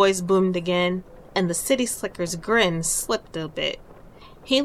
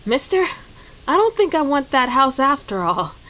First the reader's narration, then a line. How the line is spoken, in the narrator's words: he gasped